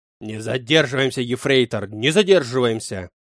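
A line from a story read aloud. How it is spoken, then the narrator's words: Angry bark. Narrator (Russian): Зло гаркнул Клаус Мария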